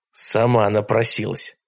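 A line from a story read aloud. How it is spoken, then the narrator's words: Muttered. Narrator (Russian): пробормотал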